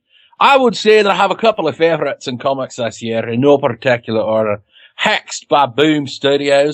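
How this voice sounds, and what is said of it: Put-on Scottish accent. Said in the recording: “I don't know if he has an accent, so I'm going to be Scottish.”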